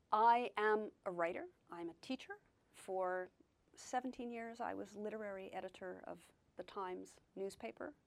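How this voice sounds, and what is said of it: American accent. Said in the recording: “although I've hung on to my accent, I have lived in Britain for 30 years now... an American”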